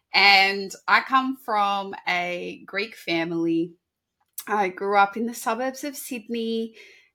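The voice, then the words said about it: Sydney Australian accent. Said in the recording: “a Sydney girl, born and bred, as you can probably hear in my voice a little bit”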